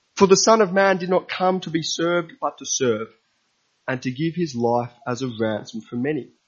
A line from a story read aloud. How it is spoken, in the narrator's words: he said